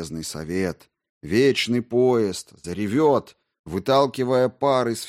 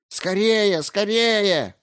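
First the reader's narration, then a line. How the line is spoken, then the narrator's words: Yelling group. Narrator (Russian): орали они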